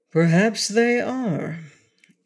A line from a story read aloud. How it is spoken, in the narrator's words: assented the wizard in a thoughtful tone of voice